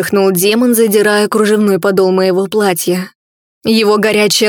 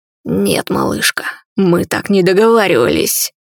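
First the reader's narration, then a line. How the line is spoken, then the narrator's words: Growling. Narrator (Russian): прорычал коллекционер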